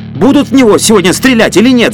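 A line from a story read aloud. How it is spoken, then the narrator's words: Strained yelling. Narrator (Russian): заорал Фокин натужным голосом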